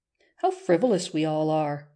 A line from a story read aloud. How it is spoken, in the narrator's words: she said with a sigh